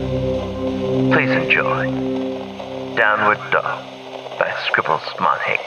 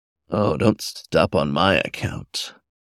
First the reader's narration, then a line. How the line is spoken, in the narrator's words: a voice softly growled